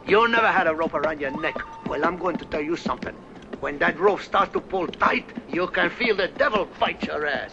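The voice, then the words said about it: Fake Mexican accent as Tuco. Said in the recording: “Tuco, the Mexican outlaw ... The accent was fake.”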